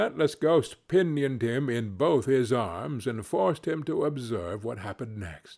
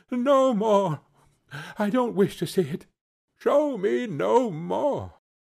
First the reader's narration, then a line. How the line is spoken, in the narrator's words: cried Scrooge